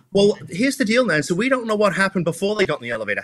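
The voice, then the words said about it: British accent. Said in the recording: “your Brit accent”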